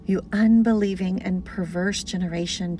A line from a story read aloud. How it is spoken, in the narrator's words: Jesus replied